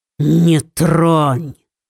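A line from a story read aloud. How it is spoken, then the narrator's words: Prince growling, composure lost. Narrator (Russian): прорычал принц, чье самообладание испарилось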